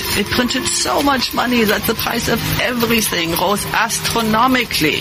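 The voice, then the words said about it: Exaggerated fake German accent. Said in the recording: “The most insulting fake German accent I've ever heard.”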